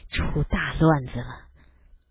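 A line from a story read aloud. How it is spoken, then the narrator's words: Flustered low mutter. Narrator (Chinese): 父亲神色很狼狈，低声嘟囔着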